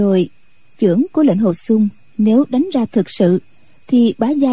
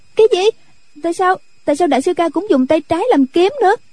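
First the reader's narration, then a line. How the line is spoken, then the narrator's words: Startled frightened cry. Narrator (Vietnamese): Nhạc Linh Sang giật mình sợ hãi, cũng la lên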